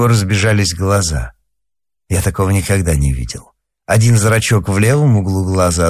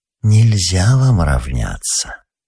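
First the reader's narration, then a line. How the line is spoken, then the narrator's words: Gentle coaxing, as to child. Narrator (Russian): Тая сказала ему ласково и увещевательно, как маленькому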